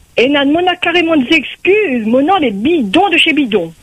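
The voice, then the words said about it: Southern French accent. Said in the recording (French): “Elle a une jolie voix, cette papillon. Ça, c'est une petite voix du sud. ... on dirait une voix du sud ... l'accent”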